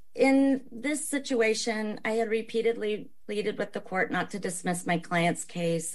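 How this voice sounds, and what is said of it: Hoarse, raspy voice. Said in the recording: “I apologize for my hoarse voice. I've dealt with COVID ... I've just got the lasting raspy voice.”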